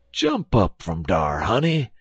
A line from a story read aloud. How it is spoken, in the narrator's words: exclaimed Uncle Remus